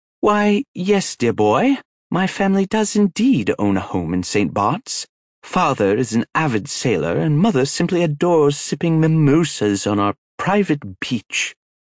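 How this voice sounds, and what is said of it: Flawless put-on British accent. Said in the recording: “affects a flawless British accent”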